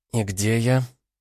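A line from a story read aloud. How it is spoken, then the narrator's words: Quiet, to herself. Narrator (Russian): тихо спросила она у самой себя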